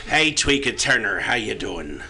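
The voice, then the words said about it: Rough, gruff put-on Irish accent. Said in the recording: “He is an Irishman ... accent ... Really, really rough and gruff. He's quite menacing.”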